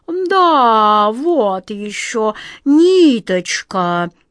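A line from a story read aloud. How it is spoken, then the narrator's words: Sleepy cat reply. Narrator (Russian): сонно отозвался кот Васька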